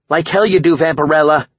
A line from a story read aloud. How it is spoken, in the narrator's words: Cindy snapped